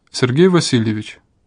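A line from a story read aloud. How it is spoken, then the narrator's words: Unnaturally calm voice. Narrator (Russian): голос посвященного звучал почти сверхъестественно спокойно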